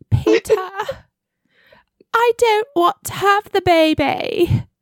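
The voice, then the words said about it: Mixed, half-Australian put-on accent. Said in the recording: “I don't know what accent I'm doing now. ... That was like half Australian and half, I don't know what.”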